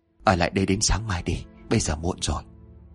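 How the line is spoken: Soft voice. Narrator (Vietnamese): Bảy Dao mới khẽ nói

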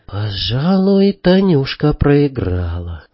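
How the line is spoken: Quiet remark. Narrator (Russian): сказала негромко Наташка Мигачева

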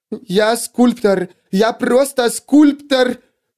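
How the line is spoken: Hysterical repetition. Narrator (Russian): Женщина повторяла это снова и снова, с истерийским акцентом

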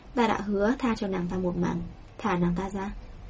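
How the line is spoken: Cold. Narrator (Vietnamese): Tây Lương Mạt lạnh lùng nói

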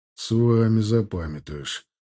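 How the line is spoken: Grumbling. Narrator (Russian): проворчал Алексей

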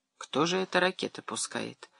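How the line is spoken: Thoughtful. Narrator (Russian): задумчиво сказал Вадим

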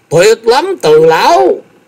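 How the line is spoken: Excited exclamation. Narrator (Vietnamese): Thái Anh nhìn thấy, tinh thần vô cùng phấn chấn, kêu lên

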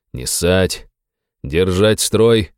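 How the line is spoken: Commanding order. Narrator (Russian): командным голосом приказал я

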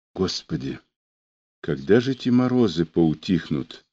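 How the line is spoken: Fearful whisper. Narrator (Russian): прошептала Маня, стараясь как-то ослабить свой страх

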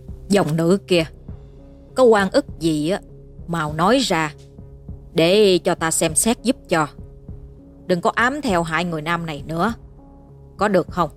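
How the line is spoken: Stern old man. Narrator (Vietnamese): Chợt ông nghiêm giọng nói

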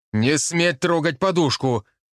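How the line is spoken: Yelling. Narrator (Russian): опять заорал я

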